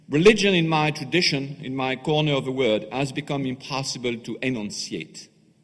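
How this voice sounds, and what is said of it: French accent. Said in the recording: “accent, French accent.”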